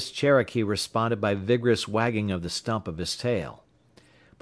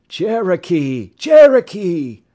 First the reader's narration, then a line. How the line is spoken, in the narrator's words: many cries of